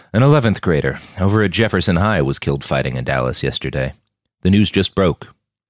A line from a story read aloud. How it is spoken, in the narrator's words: he sighed